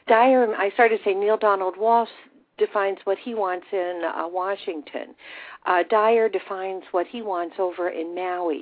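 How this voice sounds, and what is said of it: Hoarse, fading voice. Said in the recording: “I'm losing my voice here”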